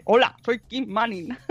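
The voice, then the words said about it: Imitates another person's voice. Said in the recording (Spanish): “siempre hablaba como ... A mí me hablaba como de Albacete.”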